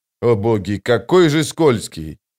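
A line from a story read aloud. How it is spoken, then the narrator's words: Snorting. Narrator (Russian): Скворец хмыкнул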